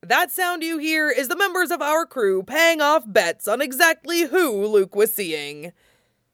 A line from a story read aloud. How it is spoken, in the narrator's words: shouting above the din